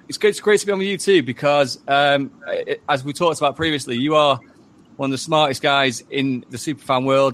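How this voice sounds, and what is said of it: Manchester/Derbyshire English accent. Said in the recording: “Is that accent real ... It's a weird accent that's kind of Manchester / Derbyshire, where I'm from. So it is my accent”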